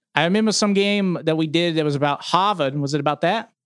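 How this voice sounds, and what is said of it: Southern Boston accent. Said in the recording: “some weird things with your voice have been going on ... like this Southern Bostonian accent”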